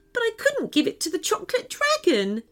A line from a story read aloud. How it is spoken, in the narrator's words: said, sobbing again